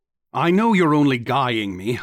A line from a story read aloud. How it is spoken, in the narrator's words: I said angrily